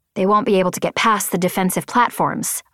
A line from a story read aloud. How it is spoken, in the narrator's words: I said